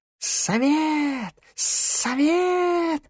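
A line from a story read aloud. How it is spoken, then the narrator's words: Hissing snakes. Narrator (Russian): зашипели змеи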